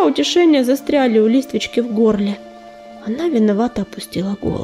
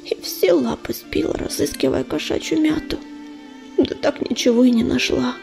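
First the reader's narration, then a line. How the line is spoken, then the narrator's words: Tired whisper. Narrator (Russian): устало прошептала она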